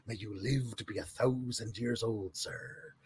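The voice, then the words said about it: Gentle pirate accent. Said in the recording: “his very gentle pirate accent ... Unmistakably pirate”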